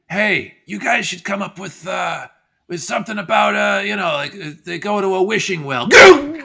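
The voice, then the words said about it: Impression of John Dunn. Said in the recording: “I'll do my impression of John Dunn in 1982.”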